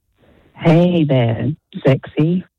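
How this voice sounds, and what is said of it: Put-on sultry, seductive voice. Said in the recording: “Can you give us your best sexy voice? ... Pretty sexy.”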